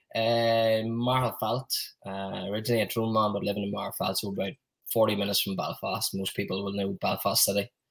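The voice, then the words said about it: Northern Irish accent. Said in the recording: “all the way from Ireland ... It was just purely guessed by the accents.”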